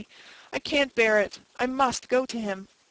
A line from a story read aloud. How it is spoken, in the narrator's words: said Jane brokenly